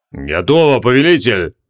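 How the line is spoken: Booming drone. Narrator (Russian): прогудел Тибалорд

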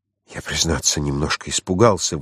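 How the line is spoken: Breathy exhale. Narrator (Russian): выдохнул Франц

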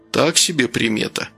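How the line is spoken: Muttering. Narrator (Russian): пробормотал Гордей

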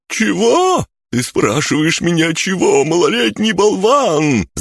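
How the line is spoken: Yelling. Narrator (Russian): завопил Бран

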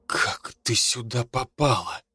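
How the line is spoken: Strained, forced out. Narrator (Russian): выдавил

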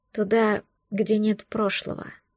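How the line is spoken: Almost silent whisper. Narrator (Russian): почти беззвучно прошептала я

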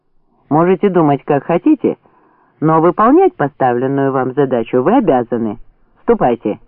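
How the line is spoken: Sharp command. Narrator (Russian): резко приказал Фролов

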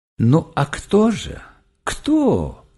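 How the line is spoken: Gentle question. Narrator (Russian): ласково спросил Игорь Петрович

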